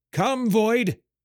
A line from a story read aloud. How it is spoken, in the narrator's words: cried